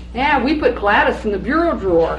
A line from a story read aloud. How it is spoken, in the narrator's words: Imogene said